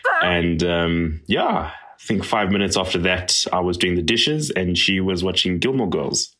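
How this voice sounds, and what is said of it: South African accent. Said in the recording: “I love a South African accent”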